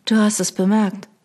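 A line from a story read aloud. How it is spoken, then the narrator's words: Flat, toneless. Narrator (German): sagte ich tonlos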